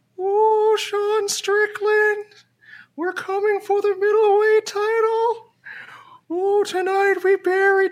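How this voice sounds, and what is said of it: Paul Bearer impression. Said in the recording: “your best Paul Bearer impression.”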